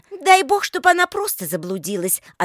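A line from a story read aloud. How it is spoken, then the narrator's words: Curt, angry. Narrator (Russian): отрезала Лика, продолжая сердито хмурить брови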